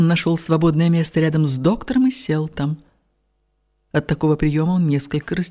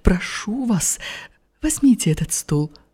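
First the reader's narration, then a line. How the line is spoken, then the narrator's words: Quiet voice. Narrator (Russian): сказала ему тихим голосом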